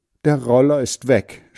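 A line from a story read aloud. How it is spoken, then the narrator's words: Sobbing. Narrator (German): schluchzt Margret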